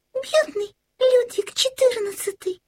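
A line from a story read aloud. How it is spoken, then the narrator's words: Exclamation. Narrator (Russian): воскликнула тут-то Карлсон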